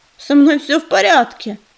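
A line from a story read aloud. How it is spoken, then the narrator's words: Grumbling. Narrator (Russian): проворчала она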